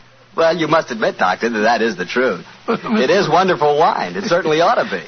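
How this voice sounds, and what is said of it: Usual voice. Nothing is said of it.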